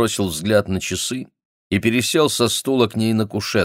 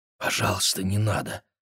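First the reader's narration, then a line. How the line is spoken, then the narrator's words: Whisper. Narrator (Russian): прошептала она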